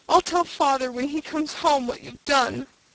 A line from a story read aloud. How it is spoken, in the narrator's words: sobbed Faith